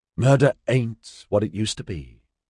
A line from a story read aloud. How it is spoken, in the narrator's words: she said in a pleasant, conversational tone